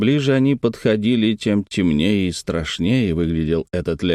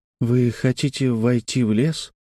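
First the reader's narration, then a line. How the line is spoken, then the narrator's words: Timid question. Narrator (Russian): робко спросил Тим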